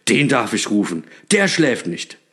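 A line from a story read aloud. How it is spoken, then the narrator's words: Delighted call. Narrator (German): rief Knecht Ruprecht erfreut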